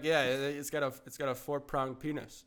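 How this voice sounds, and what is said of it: Attempted Australian accent, admittedly poor. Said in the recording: “I can't do an Australian accent. I'll do my best... I can't do it. No. I tried, but I don't have enough alcohol.”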